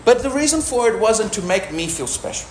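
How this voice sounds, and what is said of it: Speaks with a noticeable accent. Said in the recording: “my accent. But some people find it charming.”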